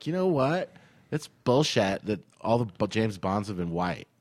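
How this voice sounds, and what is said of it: Valley Girl-like mocking character voice. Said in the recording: “Is that like a Valley Girl impersonation? ... that's my liberal impersonation.”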